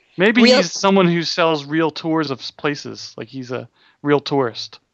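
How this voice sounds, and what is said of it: Philadelphia accent. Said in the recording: “that's your Philadelphia accent coming out”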